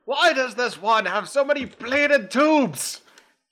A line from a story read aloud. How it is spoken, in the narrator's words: Ged yell from the other room